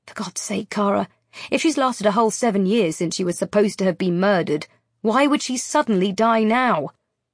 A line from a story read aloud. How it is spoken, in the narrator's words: I gasp as the answer hits me